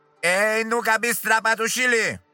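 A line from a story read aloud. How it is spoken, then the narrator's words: Guard shouting through bars. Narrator (Russian): крикнул через решетку конвойный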